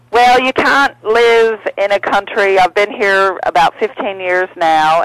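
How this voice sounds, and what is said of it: Tennessee accent with Australian tinge. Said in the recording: “you lost that Tennessee accent, and it's got a little Australian tinge”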